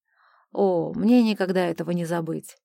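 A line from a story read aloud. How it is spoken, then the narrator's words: Angry snort. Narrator (Russian): Ариэлла гневно фыркнула в ответ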